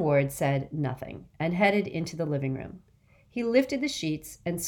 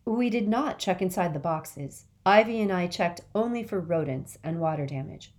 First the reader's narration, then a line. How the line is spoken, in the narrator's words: said Mama